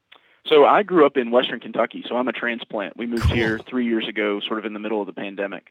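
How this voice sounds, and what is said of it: Slight Southern American accent. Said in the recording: “you got a little bit of the Southern accent”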